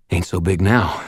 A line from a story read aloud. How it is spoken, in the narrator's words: panted